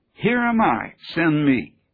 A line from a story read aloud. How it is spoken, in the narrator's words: Isaiah cried out